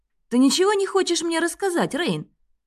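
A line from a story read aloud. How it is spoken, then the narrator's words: Sudden sharp question. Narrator (Russian): неожиданно резко спросил Клеменс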